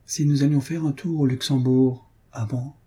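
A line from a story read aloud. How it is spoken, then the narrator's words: Grave, slow voice. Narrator (French): me dit, d'une voix grave et lente que je ne lui connaissais pas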